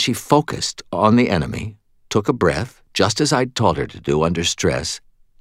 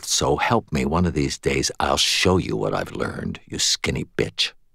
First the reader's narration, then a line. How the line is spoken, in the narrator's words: Molly muttered, mostly under her breath